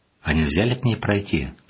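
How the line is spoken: Plain. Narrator (Russian): спросила Е

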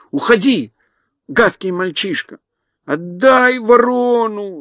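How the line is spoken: Whining. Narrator (Russian): захныкал Джимми

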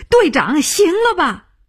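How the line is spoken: Shouting out. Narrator (Chinese): 他叫起来

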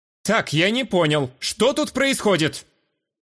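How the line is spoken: Mock-stern tipsy indignation. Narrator (Russian): Преувеличенно строго возмутился Ера, который явно находился на веселе после выпитого

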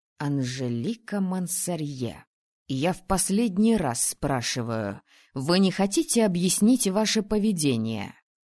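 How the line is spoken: Hissing whisper. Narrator (Russian): Свистящим шепотом спросил папа

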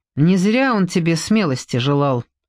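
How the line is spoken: Angry. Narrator (Russian): сердито сказала Эстер

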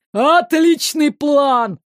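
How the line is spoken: Joyful announcement from behind. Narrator (Russian): радостно возвестили за их спинами

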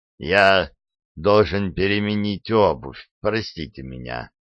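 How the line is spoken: Calm. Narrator (Russian): спокойно проговорил он

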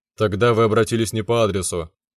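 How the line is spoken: Answered dryly. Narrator (Russian): сухо ответил

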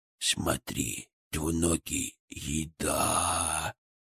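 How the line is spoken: Drooling, drawn-out eager voice. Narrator (Russian): Чуть ли не пуская слюни, протянул Фырк

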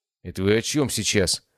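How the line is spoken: Queasy mutter. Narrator (Russian): пробормотал зеленеющий Василий Анатольевич

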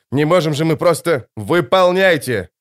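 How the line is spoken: Barked. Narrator (Russian): рявкнул Пауль

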